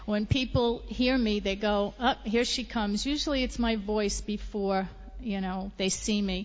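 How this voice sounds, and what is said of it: New York accent. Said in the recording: “native New Yorker ... you could probably tell from my accent.”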